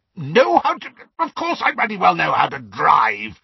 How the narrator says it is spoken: spluttered Uncle Vernon

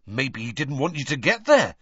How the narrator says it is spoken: said Ron quickly

